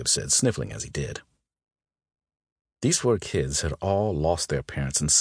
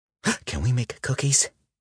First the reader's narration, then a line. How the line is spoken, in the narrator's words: Jacob gasped